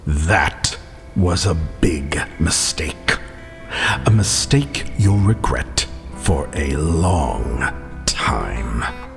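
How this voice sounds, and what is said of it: Scary, menacing voice. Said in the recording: “in his scary voice”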